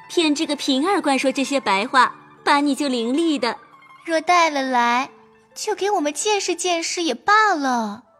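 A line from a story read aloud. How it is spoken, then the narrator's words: Laughing. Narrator (Chinese): 宝钗笑道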